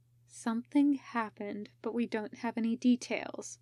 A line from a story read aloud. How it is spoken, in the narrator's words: Genma said quietly